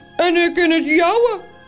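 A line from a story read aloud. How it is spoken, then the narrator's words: Calling in another's voice. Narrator (Dutch): roept de andere Toos met de stem van Morrel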